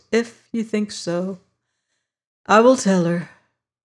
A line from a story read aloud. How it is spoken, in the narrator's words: sighed